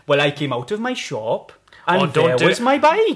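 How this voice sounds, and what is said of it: Put-on Welsh accent. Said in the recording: “Don't do a Welsh accent.”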